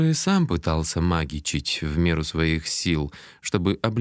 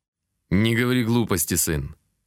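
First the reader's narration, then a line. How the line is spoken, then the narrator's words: Stern fatherly rebuke. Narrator (Russian): строго отдернул меня отец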